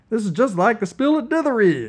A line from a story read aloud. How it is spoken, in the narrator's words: exclaimed Revel